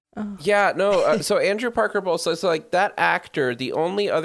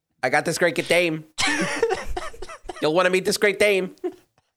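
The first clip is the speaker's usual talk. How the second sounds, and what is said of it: Old-timey 1920s American accent. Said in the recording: “old-timey 1920s American accent”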